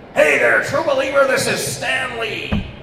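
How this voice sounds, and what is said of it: Imitates another person's voice. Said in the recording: “good Stan Lee impression.”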